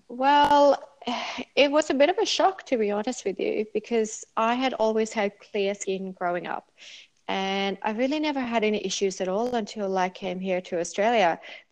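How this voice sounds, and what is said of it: Non-Australian accent. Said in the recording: “you have a beautiful accent there”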